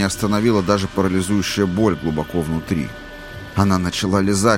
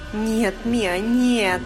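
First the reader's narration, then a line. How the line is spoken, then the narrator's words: Moaning. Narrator (Russian): простонала Сюзанна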